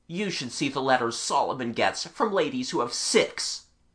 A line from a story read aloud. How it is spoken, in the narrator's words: Peter replied bitterly